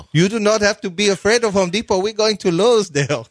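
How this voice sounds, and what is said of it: Put-on mixed Indian-Jamaican accent. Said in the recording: “What accent is that? ... Oh, an Indian. ... No, it's some Jamaican, some Indian.”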